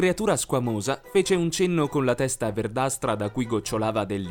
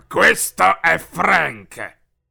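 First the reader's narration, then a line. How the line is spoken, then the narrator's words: Irritated growl. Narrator (Italian): ringhiò Fido irritato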